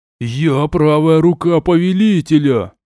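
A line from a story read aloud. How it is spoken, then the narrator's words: Growling goat. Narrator (Russian): прорычал козел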